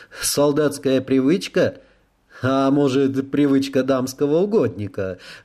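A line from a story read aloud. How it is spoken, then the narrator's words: Chuckling. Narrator (Russian): хохотнул в ответ Рэй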